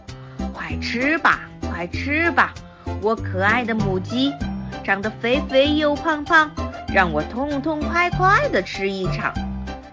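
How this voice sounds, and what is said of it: Quiet muttering chant. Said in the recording (Chinese): “小声念叨”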